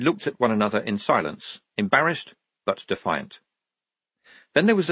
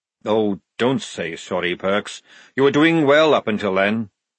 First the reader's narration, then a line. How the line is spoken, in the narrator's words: said Jackram bitterly